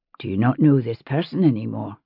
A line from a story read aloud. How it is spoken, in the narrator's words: he said quietly in Mohawk